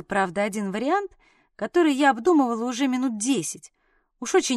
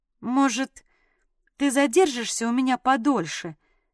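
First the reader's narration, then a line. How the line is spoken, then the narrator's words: Uncertain offer. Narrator (Russian): предложила неуверенным голосом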